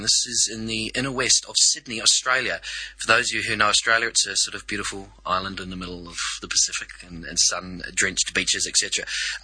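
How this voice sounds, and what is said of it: New Zealand accent. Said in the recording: “I am a New Zealander, so excuse the accent.”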